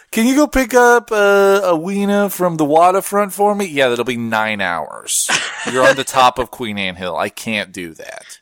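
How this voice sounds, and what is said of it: Put-on Seattle accent. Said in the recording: “that is a flawless ... Seattle-lite accent.”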